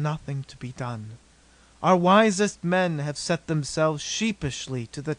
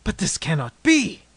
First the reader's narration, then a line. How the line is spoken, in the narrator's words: exclaimed, clenching my fists impatiently